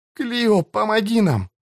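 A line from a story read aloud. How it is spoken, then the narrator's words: Breathless. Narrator (Russian): выдохнула Кэтрин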